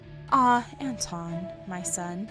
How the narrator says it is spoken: his mother would answer with a sigh

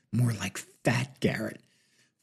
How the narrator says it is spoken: Farber leaned into Martin and whispered into his ear

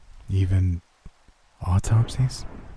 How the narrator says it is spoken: I asked hesitantly

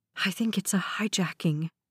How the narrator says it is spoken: Meredith whispered

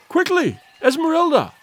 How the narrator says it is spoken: he cried

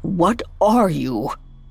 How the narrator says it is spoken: croaked Scrooge, finally finding his voice

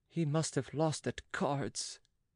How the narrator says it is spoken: murmured Oliva

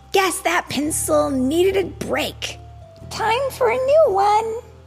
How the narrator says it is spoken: she would exclaim

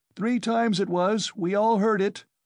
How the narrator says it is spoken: shouted a third

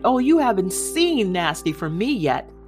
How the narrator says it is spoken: shouted

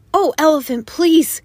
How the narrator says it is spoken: cried the birds in the trees

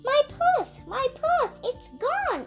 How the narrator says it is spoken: Allison cried

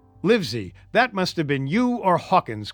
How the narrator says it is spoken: cried the squire

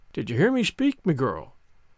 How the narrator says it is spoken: he said, in that quiet tone which no one inside the inn dared to disobey

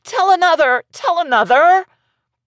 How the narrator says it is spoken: the children cried

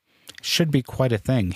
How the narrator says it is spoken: said

